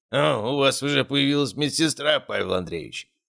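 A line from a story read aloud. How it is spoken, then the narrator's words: Amused snort. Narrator (Russian): хмыкнул он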